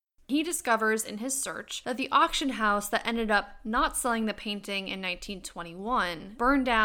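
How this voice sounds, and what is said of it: Usual voice. Nothing is said of it.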